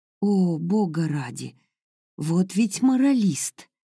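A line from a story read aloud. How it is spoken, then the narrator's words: Loud exhale. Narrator (Russian): Грейс шумно выдохнула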